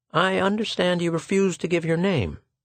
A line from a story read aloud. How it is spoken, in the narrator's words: said Schecht kindly